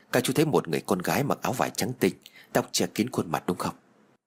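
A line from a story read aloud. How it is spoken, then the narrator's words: Quiet question. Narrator (Vietnamese): Ninh hỏi nhỏ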